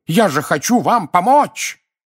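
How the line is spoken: Bellowing like wounded beast. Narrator (Russian): Взревев, как раненый гиппопотам, дядя Вернон

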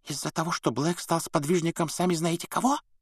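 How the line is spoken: Whisper. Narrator (Russian): прошептала мадам Розмерта

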